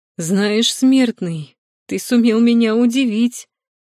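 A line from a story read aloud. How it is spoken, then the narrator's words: Exclaimed. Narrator (Russian): Воскликнул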